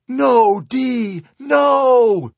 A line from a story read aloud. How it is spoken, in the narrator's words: screamed